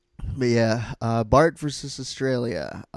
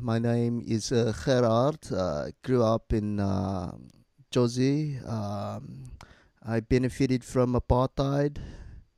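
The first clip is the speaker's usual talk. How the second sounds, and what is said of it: Put-on South African accent. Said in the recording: “That's my South African accent.”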